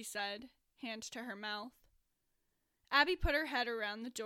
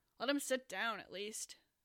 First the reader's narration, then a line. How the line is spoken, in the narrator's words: Wimax suggested gruffly